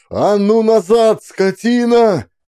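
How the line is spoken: Terrible scream. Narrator (Russian): Страшно закричав

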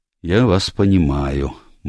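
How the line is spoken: Gloomy. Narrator (Russian): мрачно произнес Пайковый

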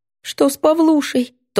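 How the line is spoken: Thin shaking sobs. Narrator (Russian): тонко всхлипывает, вздрагивая в плечах

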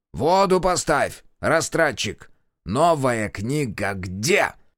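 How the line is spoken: Barking. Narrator (Russian): рявкнул главный зоотехник

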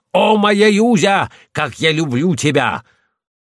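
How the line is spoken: Shouted like a madman. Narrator (Russian): закричит, как сумасшедший

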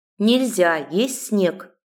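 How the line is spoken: Stern. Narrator (Russian): строго сказала

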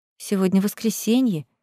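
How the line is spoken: Muttered. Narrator (Russian): пробормотала я

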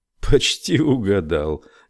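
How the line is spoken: Laughing. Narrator (Russian): Генри засмеялся

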